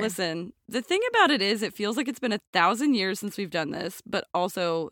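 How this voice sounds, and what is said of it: Usual voice. Nothing is said of it.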